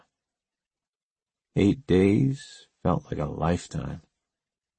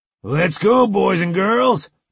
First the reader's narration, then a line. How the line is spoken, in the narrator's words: boomed Gunny